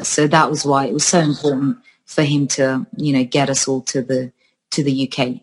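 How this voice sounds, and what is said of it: English accent with Northern Irish traces. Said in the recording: “this is why I have this accent in that I uh, I learned to speak English in Belfast, and then we were five years in Northern Ireland before we moved to the south of England”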